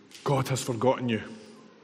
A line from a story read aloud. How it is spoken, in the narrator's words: Fear whispers in our ear